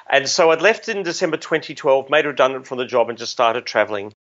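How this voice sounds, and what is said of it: Australian accent. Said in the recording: “this is not a Kenya accent... I am Australian”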